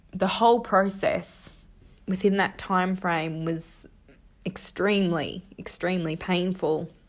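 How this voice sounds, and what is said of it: Emotional, choked-up voice. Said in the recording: “I'm getting a little bit emotional.”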